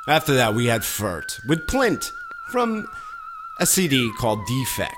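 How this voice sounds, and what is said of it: Dramatic put-on radio announcer voice. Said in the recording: “my very dramatic radio voice, which, if you've ever met me in person, is is is completely fake. Phony. I don't talk like that.”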